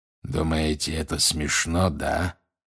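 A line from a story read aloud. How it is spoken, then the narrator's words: Growling. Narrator (Russian): прорычал он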